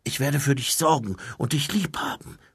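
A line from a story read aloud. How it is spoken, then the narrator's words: Whisper. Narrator (German): flüsterte Mumin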